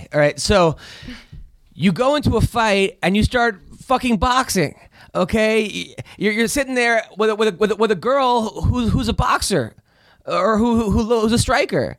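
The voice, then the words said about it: Yelling, raised voice. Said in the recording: “are you yelling at me right now? ... Why are you yelling? ... You are so yelling. ... Raise your voice.”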